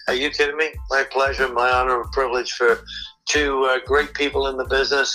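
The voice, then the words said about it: English accent. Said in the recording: “little weird English guy with a strange accent”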